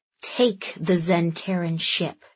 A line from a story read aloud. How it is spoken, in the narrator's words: Andy snarled